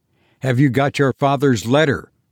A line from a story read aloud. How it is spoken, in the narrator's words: I cried eagerly